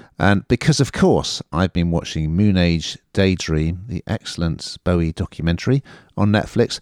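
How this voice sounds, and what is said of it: Usual voice. Nothing is said of it.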